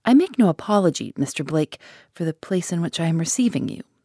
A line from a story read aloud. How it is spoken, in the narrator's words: he said